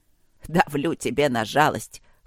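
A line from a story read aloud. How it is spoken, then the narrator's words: Wry snort. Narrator (Russian): хмыкнул Черныш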